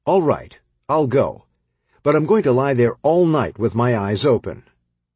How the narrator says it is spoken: One little girl … angrily shouted

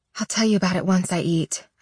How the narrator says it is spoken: I sigh

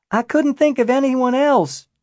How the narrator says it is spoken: Aaron shouted back

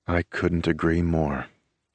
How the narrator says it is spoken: Ronaldo murmurs from beside me

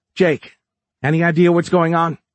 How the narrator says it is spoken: Kate called out

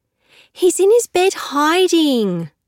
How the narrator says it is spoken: Harriet wails

